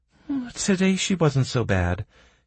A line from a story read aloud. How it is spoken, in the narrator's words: Kira sighed